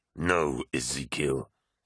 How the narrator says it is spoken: said Loken through clenched teeth

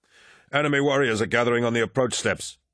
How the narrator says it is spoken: Kairos called out

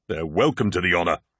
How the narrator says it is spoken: grunted Torgadon

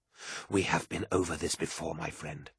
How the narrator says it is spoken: said Kassar

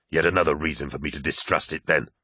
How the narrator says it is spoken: snapped Loken

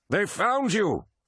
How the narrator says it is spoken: yelled Sindemann, realizing what was happening

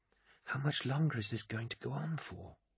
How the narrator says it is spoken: whispered Euphrates Keeler, leaning in towards him

